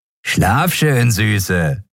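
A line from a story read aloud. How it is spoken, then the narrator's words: Farewell with dirty laugh. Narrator (German): sagte der eine zum Abschied und lachte dreckig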